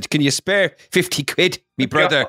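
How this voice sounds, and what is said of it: Put-on Irish accent. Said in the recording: “I don't know why I put on that accent. ... I'm putting a moratorium on the Irish accents in this episode now.”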